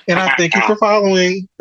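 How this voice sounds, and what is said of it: Imitates another person's voice. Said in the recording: “in my Wendy Williams voice”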